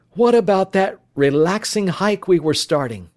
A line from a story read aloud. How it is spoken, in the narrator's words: Phil sighed